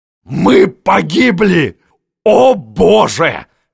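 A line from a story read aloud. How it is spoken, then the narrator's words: Desperate shout. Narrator (Russian): закричал Миних в отчаянии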